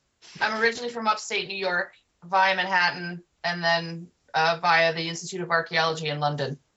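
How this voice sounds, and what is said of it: American accent, not British. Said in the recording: “your accent doesn't sound very, very much like the UK. Are you American by any chance?”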